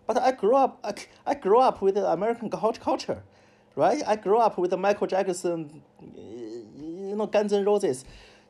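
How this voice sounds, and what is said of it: Imperfect non-native English accent. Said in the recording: “I can't speak perfect English. I have a fake English accent.”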